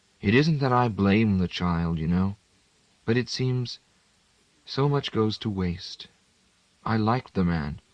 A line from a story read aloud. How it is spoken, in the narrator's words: she said in her mild voice, which no longer had much lilt or lift in it